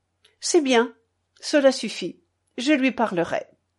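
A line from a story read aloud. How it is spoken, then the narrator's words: Cold. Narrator (French): Elle répondit froidement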